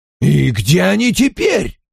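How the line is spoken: Exclaimed. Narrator (Russian): воскликнул мистер Хонифуд

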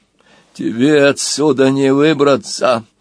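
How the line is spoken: Through gritted teeth. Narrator (Russian): процедил Норк

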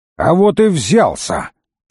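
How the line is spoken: Barked. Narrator (Russian): рявкнул Крут

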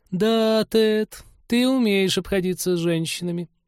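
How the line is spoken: Stunned drawl. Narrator (Russian): потрясенно протянула Полина

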